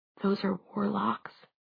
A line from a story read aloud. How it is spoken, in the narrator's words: Clary whispered softly